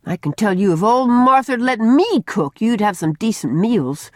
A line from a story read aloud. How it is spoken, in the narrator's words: she told the manse children indignantly